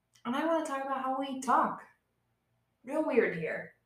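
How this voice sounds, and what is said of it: Appalachian accent. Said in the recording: “the real good old-fashioned Appalachian accent, because it will get worse as we continue”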